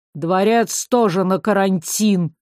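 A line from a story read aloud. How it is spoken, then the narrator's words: Through gritted teeth. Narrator (Russian): процедил Тарьяр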